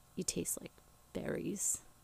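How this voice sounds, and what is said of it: Creepy deep voice. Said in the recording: “in a really creepy, deep voice”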